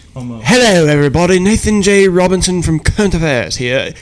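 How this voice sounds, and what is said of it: American putting on a British accent. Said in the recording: “Famed American man from the Midwest using my British accent.”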